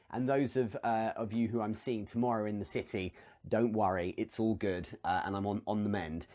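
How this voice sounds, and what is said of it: Smooth posh British accent. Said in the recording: “posh boy accent ... Smooth and lovely”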